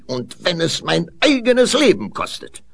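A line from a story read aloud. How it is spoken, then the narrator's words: Called out. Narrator (German): rief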